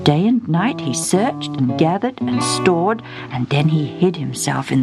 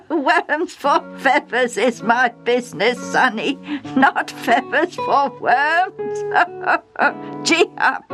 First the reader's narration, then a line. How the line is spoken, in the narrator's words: The old coachman laughed, shouting over his shoulder